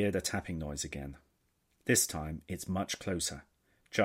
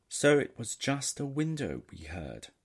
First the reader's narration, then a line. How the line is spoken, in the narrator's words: sighs Fazer